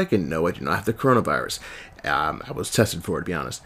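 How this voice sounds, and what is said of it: Raspy, congested voice. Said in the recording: “Excuse my raspy voice ... I've been fighting a cold ... change of weather throat ... phlegm build up”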